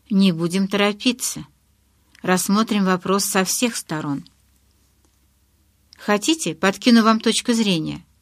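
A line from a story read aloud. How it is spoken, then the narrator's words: Even-toned question. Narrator (Russian): ровным тоном поинтересовался Гаррет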